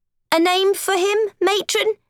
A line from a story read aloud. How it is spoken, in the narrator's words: the orphan asked nervously